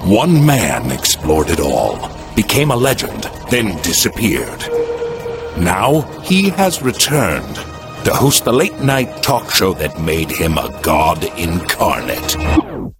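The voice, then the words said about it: Fake spooky movie-trailer voice. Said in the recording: “the fakey, spooky trailer voice”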